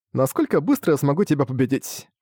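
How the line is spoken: Casual, playful tone. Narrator (Russian): сказал Муто непринужденным тоном, словно играл с ним в игру

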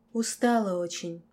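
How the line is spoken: Whispered. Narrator (Russian): прошептала

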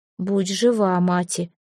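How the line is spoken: Soft, steeling herself. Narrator (Russian): мягко пожелала Эльга, стараясь укрепиться духом

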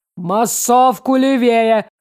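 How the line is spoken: Shout through megaphone. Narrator (Russian): крикнул в громкоговоритель ЛМ

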